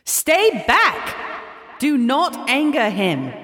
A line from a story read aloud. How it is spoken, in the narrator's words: shouted